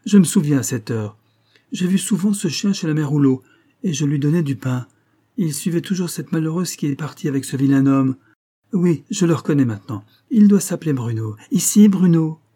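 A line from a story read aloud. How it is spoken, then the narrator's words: Lively exclamation. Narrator (French): s'écria-t-elle vivement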